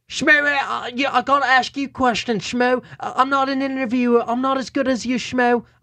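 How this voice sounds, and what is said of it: Weak UK accent imitating Bisping. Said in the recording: “Let me see if I can do his UK accents. ... No, I can't do it. ... That's the best I could do.”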